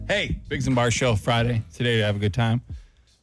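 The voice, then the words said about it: Out of breath, panting speech. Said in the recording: “I'm out of breath ... you're out of breath”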